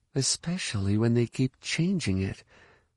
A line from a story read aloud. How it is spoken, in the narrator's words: added under her breath